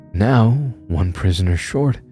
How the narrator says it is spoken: the Wendigo sighed

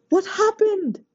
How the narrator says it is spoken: Chi-Chi shouted

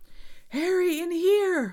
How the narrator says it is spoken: Hermione screamed

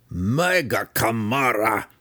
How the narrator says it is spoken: shouted Belwar

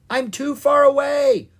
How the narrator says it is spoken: Owen yelled

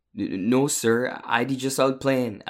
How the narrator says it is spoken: Akeem stammered

